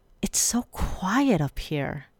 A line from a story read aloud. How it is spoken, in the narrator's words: Arizona said in an awed tone